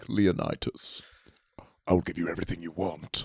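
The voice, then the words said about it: Scary voice of 300's gold villain. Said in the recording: “the gold guy from 300? That guy sounded scary as shit ... go do the voice.”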